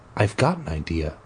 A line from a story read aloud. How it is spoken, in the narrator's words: he said quietly